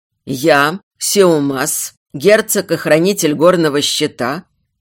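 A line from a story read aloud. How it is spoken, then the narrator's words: Hoarse mighty voice. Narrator (Russian): Хрипловатый и могучий голос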